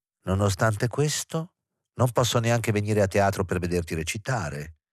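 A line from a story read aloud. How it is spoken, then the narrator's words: Disappointed tone. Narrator (Italian): disse in tono deluso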